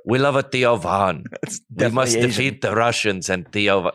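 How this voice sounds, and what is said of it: Poor attempt at Ukrainian accent. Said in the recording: “Ukrainian accent ... That's not even close ... Good effort, though ... You're still kind of Asian”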